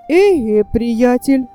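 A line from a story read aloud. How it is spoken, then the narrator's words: Exclaiming. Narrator (Russian): воскликнул он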